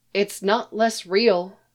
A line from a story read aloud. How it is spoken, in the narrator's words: she said